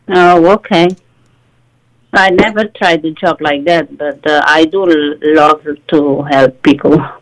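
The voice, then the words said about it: Portuguese accent, often heard as Indian. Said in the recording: “where's your accent from? ... Everybody says my accent is Indian, but actually I'm Portuguese ... I have the accent”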